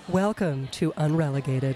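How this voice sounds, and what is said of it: Smooth, buttery NPR radio announcer voice. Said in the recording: “In my best NPR voice. ... Oh, so smooth and savory. ... it's like butter on toast.”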